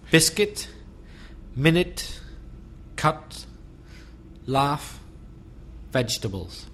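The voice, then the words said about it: Belfast accent. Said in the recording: “a Belfast accent”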